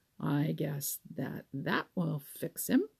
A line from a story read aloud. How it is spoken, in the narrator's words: he said